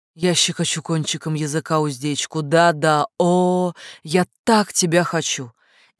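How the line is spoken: Loud drawn-out moan. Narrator (Russian): застонала громко, протяжно

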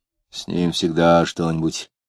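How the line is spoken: Dull, indifferent. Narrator (Russian): глухо и равнодушно ответил сосед

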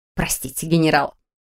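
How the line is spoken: Snorting. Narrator (Russian): хмыкнула женщина по имени Мэг

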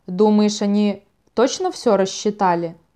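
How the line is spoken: Plain. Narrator (Russian): спросил

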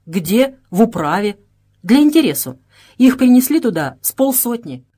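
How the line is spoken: Plain. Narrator (Russian): ответил Тряскин

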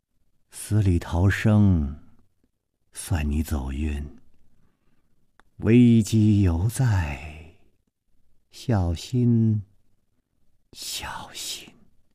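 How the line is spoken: Dazed woman's murmur. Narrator (Chinese): 白衣美妇望着湖水呆呆地出了半天神，喃喃地说

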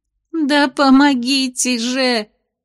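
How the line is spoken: Sobbing indignation. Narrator (Russian): всхлипывая, возмутилась Венди

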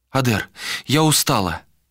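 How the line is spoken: Pleading. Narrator (Russian): взмолилась Галисия

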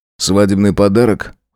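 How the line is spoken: Cold curt remark. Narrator (Russian): холодно бросил

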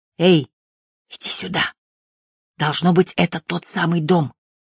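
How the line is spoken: Whisper. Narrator (Russian): прошептал

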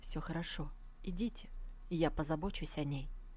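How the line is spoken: Soft calm answer. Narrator (Russian): Новобрачный ничуть не расстроился и мягко ответил

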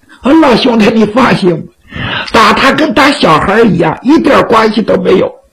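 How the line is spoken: Playful joking. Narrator (Chinese): 徐良仍然是嬉皮笑脸

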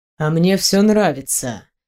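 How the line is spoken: Soft intriguing purr. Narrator (Russian): мягко, но интригующе промурлыкал начальник

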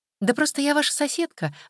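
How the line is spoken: Cheerful explaining. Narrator (Russian): радостно объяснила Тоня

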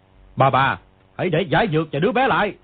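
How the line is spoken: Shouted demand. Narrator (Vietnamese): người kia quát

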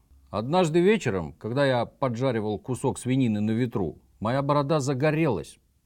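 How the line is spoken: Plain. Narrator (Russian): ответил он

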